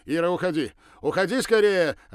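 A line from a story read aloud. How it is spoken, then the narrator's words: Desperate shout. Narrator (Russian): отчаянно закричал Ракелов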